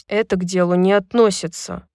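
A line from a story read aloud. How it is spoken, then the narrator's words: Mumbling. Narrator (Russian): пробормотал Хант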